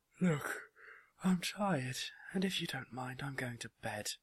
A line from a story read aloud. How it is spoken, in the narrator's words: she said sleepily